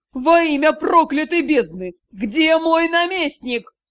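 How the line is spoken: Roared. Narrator (Russian): взревел лорд-директор

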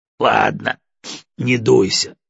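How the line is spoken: Laughing. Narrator (Russian): засмеялся Егоров

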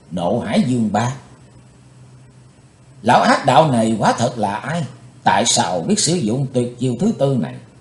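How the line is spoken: Startled soft cry. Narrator (Vietnamese): Chàng thẳng thốt kêu khẽ

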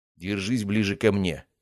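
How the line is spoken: Quiet. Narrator (Russian): тихо сказал я ей

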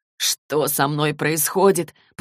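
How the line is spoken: Moaning man. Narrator (Russian): простонал Джейс

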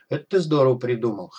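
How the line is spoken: Chuckling. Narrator (Russian): хохотнул док

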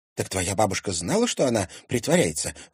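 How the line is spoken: Exclamation. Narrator (Russian): воскликнула Женя

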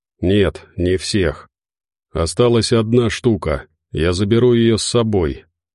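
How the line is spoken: Tired reply. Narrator (Russian): устало ответил боец

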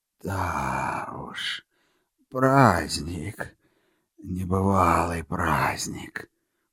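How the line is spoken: Muffled mutter. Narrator (Russian): приглушенно пробормотал святой

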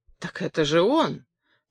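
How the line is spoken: Glum confirmation. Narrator (Russian): так же уныло подтвердил Миля

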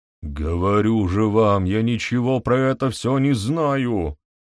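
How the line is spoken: Hopeless groan. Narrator (Russian): Безнадежно простонал Пруэн

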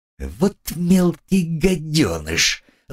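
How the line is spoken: Hissing. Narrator (Russian): зашипела Агнесса

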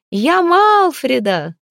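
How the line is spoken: Loud exclamation. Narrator (Russian): громко воскликнула та

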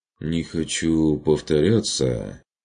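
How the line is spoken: Uncertain. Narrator (Russian): неуверенно произнес Курт

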